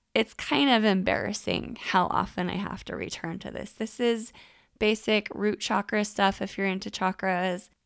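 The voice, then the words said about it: Voice slightly off from a cold. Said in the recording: “my voice sounds off. I do still have a little bit of a cold”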